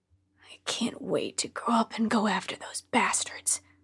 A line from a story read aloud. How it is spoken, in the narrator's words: he often muttered under his breath